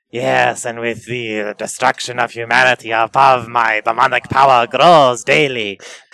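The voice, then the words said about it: Put-on demon character accent. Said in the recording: “I don't know what accent this is.”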